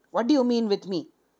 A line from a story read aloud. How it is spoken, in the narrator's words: Sushila Bala said angrily